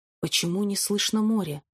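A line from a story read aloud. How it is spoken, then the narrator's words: Muttering under breath. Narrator (Russian): пробормотал я себе под нос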